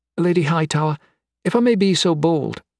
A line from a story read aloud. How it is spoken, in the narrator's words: Oriana said, fidgeting nervously with her hands